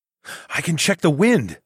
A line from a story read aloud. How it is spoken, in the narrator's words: said with a sudden gasp